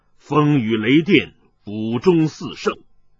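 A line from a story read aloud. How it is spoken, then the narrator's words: Deep, low voice. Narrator (Chinese): 麻衣客沉声道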